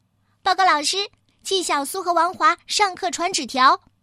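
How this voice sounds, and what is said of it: Sharp, shrill voice. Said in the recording (Chinese): “一个尖尖的声音说”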